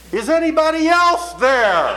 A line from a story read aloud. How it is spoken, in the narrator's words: after a long and considered silence, he shouted out